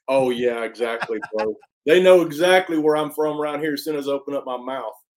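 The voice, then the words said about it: Deep Southern accent. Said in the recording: “you have the deep Southern Canadian accent”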